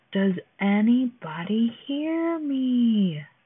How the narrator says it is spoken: shouted again

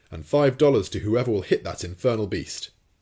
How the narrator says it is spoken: cried the commander

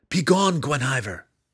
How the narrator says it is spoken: he shouted

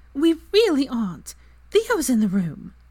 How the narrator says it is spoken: Pansy snorted

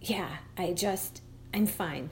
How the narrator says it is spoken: whispered, and sniffled

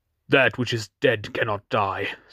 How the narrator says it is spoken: said Aaron fiercely

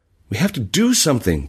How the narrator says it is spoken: Bashir cried

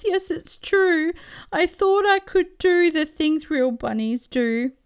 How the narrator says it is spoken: He wails

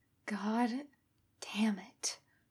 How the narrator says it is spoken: Kakashi muttered almost soundlessly

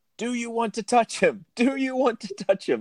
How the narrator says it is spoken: Chaucer starts yelling

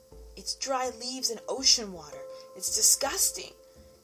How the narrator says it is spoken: Dennis Gula cried

